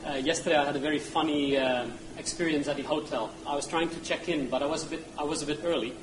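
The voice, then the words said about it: Non-native English accent. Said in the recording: “I first of all want to apologize for my accent. I'm not a native English speaker.”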